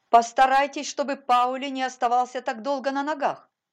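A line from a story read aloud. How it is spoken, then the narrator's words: Commanding shout. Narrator (Russian): повелительно крикнула она одноклассникам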